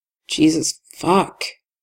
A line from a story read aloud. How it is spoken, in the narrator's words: Tim mutters